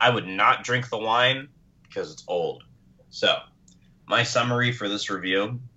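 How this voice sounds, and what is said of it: Usual voice. Nothing is said of it.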